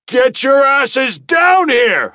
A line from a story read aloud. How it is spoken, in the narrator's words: I shouted at them with struggler's resolve